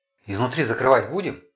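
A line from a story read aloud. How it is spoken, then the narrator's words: Whisper aside. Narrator (Russian): шепнул под руку Влад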